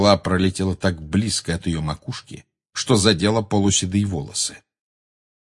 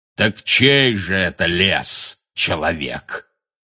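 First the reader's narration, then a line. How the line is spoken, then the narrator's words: Booming voice. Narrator (Russian): прогремел Бэйн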